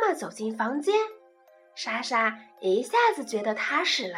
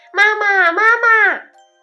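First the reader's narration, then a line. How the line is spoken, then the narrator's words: Loud call. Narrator (Chinese): 莎莎大声叫道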